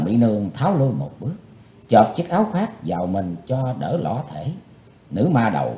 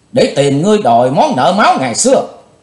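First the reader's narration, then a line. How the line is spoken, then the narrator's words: Young woman screaming. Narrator (Vietnamese): Thiếu nữ bịt mặt thét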